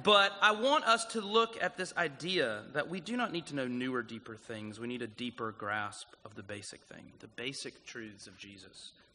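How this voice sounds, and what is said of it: Southern US South Carolina accent. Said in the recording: “my backwoods South Carolina accent”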